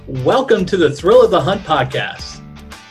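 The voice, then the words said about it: Fun radio announcer voice. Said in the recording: “my fun radio voice”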